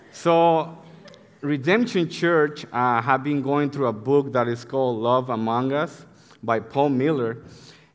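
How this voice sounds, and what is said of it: Very thick non-native accent. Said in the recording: “I have a very thick accent”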